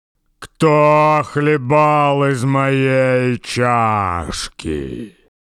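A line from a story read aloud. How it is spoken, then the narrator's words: Low growl. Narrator (Russian): Настасья Петровна зарычала не так громко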